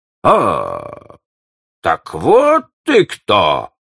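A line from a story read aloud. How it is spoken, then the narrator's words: Exclaiming. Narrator (Russian): воскликнул Клопен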